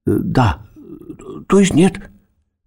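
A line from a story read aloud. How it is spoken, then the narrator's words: Stammering, babbling. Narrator (Russian): запинаясь, пролепетала Леночка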